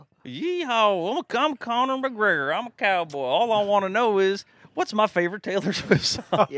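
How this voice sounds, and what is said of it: Put-on Southern cowboy accent. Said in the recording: “he's going to have a southern weird accent ... I went down south, and now I'm a cowboy”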